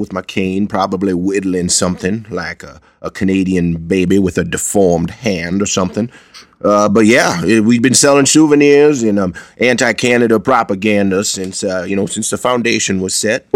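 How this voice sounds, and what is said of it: Thick put-on Maine accent. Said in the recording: “this Maine accent's pretty thick, so sometimes it blankets the subtleties”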